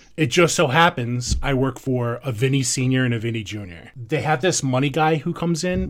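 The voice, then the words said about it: Strong New York accent. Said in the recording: “my terrible accent, I'm from New York.”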